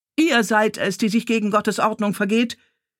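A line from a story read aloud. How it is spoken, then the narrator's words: Archbishop shouting upward. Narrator (German): schrie der Erzbischof hinauf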